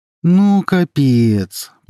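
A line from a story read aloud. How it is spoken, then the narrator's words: Groaning young man. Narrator (Russian): простонал молодой человек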